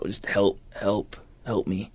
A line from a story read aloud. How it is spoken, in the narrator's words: I kind of just murmured out